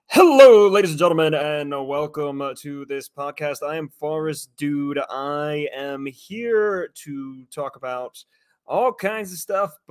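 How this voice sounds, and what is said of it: Loud announcer-style shoutcaster voice. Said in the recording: “do the shout caster voice”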